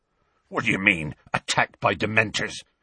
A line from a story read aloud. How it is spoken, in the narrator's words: growled Hagrid